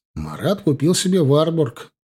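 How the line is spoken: Solemn. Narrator (Russian): торжественно произнес я

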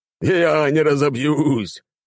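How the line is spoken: Loud laughing. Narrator (Russian): хохотал барон

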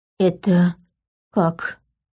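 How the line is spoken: Strained, forced out. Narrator (Russian): только и смогла выдавить Мира

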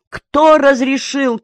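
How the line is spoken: Shout. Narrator (Russian): крикнул Черняков

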